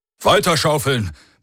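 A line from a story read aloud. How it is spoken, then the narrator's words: Roar through speaking tube. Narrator (German): brüllte Lorgis in das Sprechrohr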